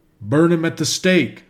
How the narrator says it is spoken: shouted a great many

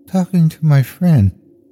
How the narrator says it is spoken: responded in her tiny voice

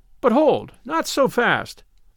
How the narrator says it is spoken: exclaim

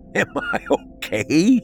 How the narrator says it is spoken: He laughed

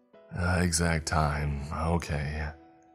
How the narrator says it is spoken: I said with a sigh

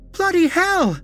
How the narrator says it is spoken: she shrieked, as she stared down at the deep wound

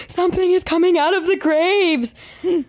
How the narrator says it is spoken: he comes running back into the truck screaming

